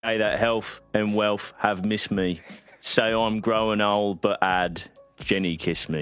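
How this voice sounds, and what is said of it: Energetic put-on Cockney accent. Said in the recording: “I don't know Cockney accents, but I could feel you committing. ... You put some real energy ... It's probably not my best accent I've ever done.”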